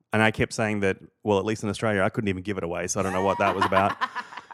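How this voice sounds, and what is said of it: Australian accent. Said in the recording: “It's all in the accent.”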